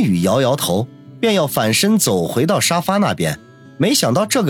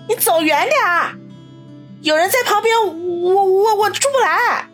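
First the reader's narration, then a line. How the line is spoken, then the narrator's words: Loud, flustered. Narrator (Chinese): 苏辛迪大声的说道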